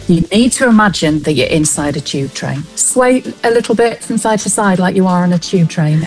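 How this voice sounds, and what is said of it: Manchester English accent. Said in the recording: “my natural Manchester accent”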